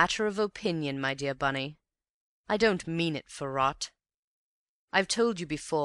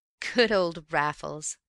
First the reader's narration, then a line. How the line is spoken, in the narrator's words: chuckled